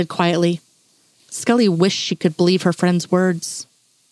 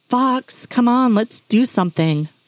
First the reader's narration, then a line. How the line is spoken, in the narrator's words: Diana whined